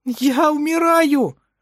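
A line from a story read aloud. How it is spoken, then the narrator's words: Holding back sobs. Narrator (Russian): Сдерживая рыдание, произнес Эдвин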